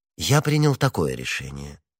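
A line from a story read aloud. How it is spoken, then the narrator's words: Pleasant gentle voice. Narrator (Russian): отвечал Арамис самым приятным нежным голосом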